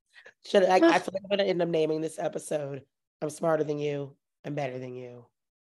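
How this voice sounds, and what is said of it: Hoarse voice. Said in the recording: “my very hoarse voice... You can tell I've been screaming about this entire thing all weekend.”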